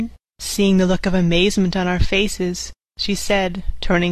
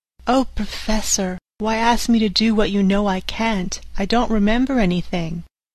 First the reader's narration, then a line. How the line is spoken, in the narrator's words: she said, sweetly and seemingly with the utmost unconcern